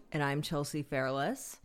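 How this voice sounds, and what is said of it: Sultry, sexy-sounding voice. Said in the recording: “that's a sexy voice.”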